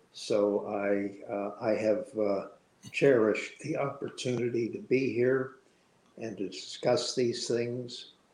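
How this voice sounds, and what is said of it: Hoarse, fading voice. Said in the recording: “I'm finally losing my voice.”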